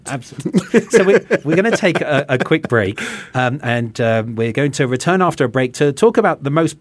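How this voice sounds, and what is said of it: English accent. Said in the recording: “from my accent, people can tell, you know, having come from England”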